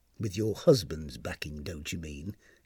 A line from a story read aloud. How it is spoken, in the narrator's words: Tanisan muttered to herself